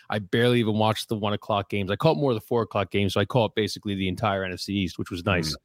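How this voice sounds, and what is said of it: Rough, worn-out sounding voice. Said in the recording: “If you can hear it in my voice ... it was a perfect Sunday to be very hungover”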